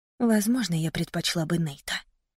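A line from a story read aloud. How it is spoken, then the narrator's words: Hurt whisper. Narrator (Russian): прошептала я, чувствуя, как во мне поднимается обида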